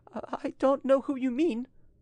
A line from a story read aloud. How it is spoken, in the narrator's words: said in a trembling voice